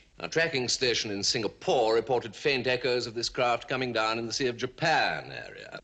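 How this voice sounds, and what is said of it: Refined upper-class British accent. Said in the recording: “uberly British ... This has got to be like proper Cambridge”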